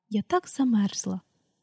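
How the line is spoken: Quiet female voice. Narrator (Ukrainian): тихо мовила Люсі

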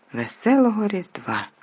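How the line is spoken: Joyful. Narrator (Ukrainian): радісно

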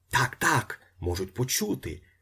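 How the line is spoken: Whispering. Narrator (Ukrainian): зашепотів Остап

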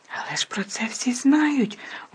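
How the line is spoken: Loud whisper. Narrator (Ukrainian): голосно прошепотіла Герміона

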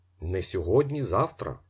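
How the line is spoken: Plain. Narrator (Ukrainian): сказав Дядєв

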